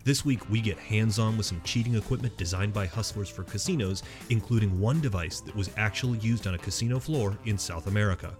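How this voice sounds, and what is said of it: Silky smooth radio announcer voice. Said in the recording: “That's not how you talk. ... I put on a very special radio voice. ... It's silky. It's smooth. ... me rubbing warm chocolate into people's ears.”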